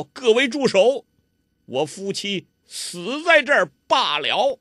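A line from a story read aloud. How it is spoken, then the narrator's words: Loud shout. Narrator (Chinese): 他就拉了包希若的手，忽然窜出来，大声叫道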